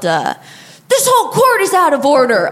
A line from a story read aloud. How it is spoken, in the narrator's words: he yelled